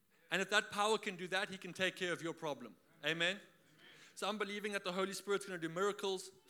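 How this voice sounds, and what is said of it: South African accent. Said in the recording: “I am from South Africa. For all of you who are wondering where that accent is from”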